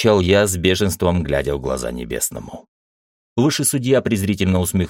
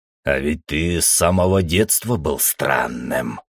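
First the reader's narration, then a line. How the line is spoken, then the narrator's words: Gloating hiss. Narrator (Russian): со злорадством прошипел небесный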